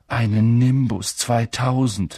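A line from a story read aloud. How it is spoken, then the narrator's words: Envious groan. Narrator (German): stöhnte Ron neidisch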